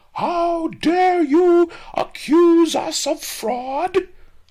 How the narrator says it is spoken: screamed pawnbroker Fang

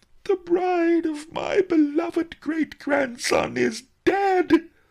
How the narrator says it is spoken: howled Master Li

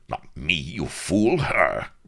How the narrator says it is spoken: roared Rook

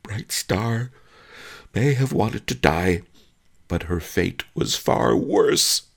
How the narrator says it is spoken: he sobbed

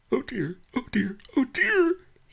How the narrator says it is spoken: he whined

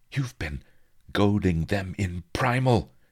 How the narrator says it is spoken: he gasped

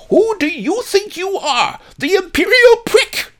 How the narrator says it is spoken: the old lady yelled

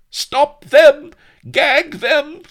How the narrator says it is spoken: screamed Don Lardo, his eyes rolling horribly as he clutched his temples

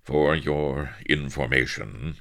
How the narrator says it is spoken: quo Avery icily

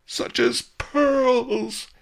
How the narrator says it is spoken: he wailed

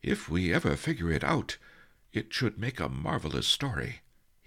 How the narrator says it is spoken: he sighed

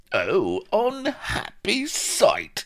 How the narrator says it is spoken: exclaimed Vladimir

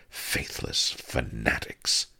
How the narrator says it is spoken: she muttered

